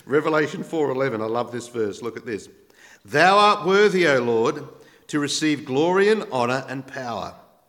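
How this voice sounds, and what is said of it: Australian accent. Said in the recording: “my Aussie twang”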